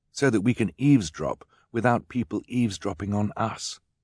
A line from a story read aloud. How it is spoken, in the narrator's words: Klaus whispered